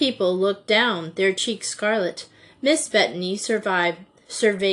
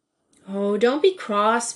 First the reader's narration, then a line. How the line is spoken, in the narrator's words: pleaded Joey